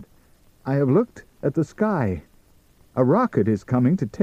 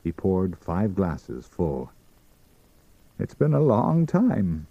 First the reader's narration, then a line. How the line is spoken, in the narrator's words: he said, gravely